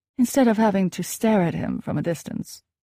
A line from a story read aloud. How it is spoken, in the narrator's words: my mom complained wistfully